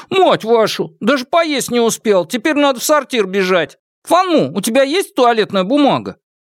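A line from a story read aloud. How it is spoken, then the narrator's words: Laughing curse. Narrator (Russian): Шестой брат, рассмеявшись, выругался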